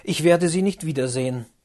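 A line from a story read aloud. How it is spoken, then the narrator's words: Exclaimed. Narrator (German): rief er aus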